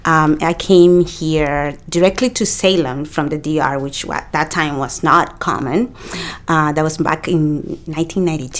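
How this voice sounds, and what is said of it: Dominican Spanish accent. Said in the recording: “I came from the Dominican Republic. And if you hear my accent, in the DR we speak Spanish.”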